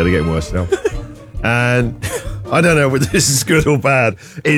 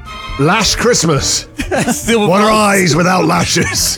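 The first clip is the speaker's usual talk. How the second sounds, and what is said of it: Put-on Scottish accent. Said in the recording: “I don't know why we've got a Scottish accent there.”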